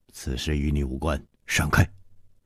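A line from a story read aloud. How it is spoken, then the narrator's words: Stern voice. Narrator (Chinese): 蒙面客厉声说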